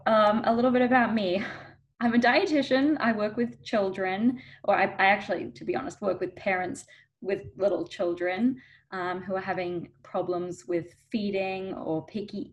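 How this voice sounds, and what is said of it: Australian accent. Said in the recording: “I'm actually originally from Australia, from Melbourne. So if you're hearing an accent, that's why.”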